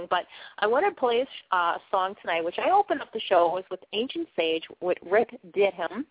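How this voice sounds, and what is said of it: Speaker with a distinctive accent. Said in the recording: “I talk with this funky accent”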